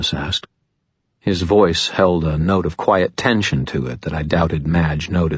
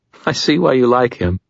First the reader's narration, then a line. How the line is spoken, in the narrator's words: She laughed again and said to Thomas